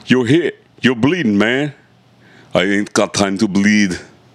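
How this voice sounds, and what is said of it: Imitates another person's voice. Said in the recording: “Do a voice... that's definitely Arnold.”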